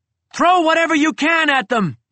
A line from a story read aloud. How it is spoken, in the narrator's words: I screamed